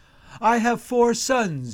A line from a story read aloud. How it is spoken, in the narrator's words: cries out